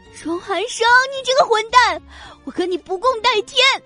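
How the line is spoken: Furious panting roar. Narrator (Chinese): 叶朵朵粗粗的喘着气，最后心里快要爆炸了似的，狂吼了一声

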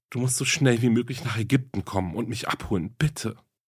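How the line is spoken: Tearful pleading on phone. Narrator (German): flehte sie mit tränenerstickter Stimme in das Telefon

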